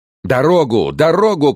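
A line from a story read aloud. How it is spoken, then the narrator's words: Shouting. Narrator (Russian): кричал он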